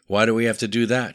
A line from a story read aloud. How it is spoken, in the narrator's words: she asked